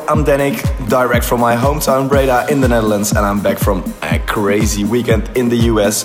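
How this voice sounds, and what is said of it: Hoarse, partly lost voice. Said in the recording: “As you can hear, I lost my voice a bit.”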